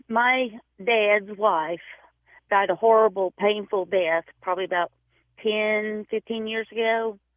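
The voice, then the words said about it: Tennessee Southern American accent. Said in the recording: “a Tennessee accent”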